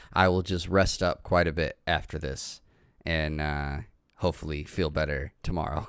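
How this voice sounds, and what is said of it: Sick-sounding voice. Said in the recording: “I am definitely sick. I don't know if you can hear it in my voice, but I am not feeling good.”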